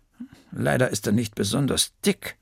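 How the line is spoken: Murmuring. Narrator (German): murmelte sie

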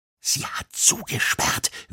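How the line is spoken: Whispering. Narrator (German): wisperte Joni

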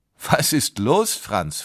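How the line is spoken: Father asking, laughing. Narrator (German): fragte sein Vater lachend

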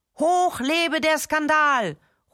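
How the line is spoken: Welcoming call. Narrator (German): ruft Pimperling zum Empfang

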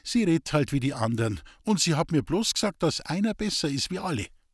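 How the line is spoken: Calm interjection. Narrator (German): fiel Lisbeth ruhig ein

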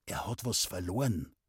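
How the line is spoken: Whispering. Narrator (German): flüsterte er draußen dem Knecht zu

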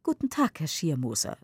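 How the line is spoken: Plain. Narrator (German): sagt

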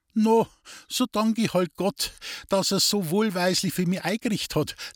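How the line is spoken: Laughing. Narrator (German): lachte Resei

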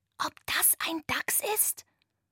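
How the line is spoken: Whispered. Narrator (German): flüsterte Antonia

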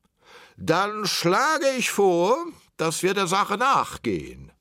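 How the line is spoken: Plain. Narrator (German): sagte der König

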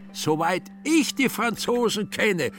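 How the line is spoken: Shouted. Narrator (German): schrie er nun Kobler an

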